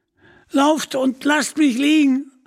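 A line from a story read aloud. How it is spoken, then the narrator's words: Screaming again in pain. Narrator (German): schrie Little John noch einmal unter Schmerzen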